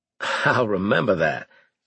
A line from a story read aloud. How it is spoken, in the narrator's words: I laughed